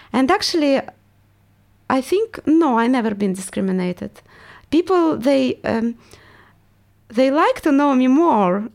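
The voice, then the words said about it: Russian accent. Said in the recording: “I want to get rid of my accent because everyone realized I'm Russian ... your accent is amazing”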